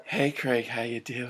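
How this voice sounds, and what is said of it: Put-on breathy voice. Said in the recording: “put on my breathy voice”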